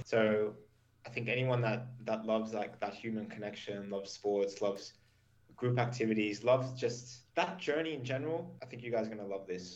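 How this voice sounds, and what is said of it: Mild Australian accent. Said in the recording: “Where do you guess from my accent? ... From the UK. ... No. ... I'm from Canberra, Australia. ... My accent is not 100%”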